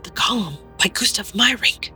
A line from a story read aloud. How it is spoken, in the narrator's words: Madeline whispered